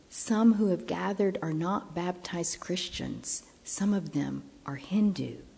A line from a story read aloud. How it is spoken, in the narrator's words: someone whispered to me